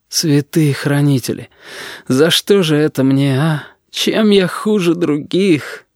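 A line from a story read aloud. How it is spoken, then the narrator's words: Sobbing. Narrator (Russian): Корнелий всхлипнул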